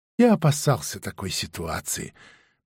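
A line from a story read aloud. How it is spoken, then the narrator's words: Sighing. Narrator (Russian): продавец вздохнул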